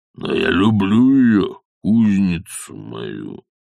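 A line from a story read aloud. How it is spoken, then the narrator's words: Slow. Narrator (Russian): медленно произнес он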